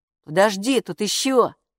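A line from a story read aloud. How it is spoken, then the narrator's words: Plain. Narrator (Russian): сказал Каппо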